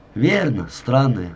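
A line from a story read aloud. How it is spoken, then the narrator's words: Laughing. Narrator (Russian): засмеялся я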